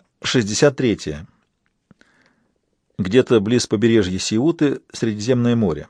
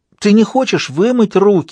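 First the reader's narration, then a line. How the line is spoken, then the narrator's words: Pleading. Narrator (Russian): взмолилась Кейт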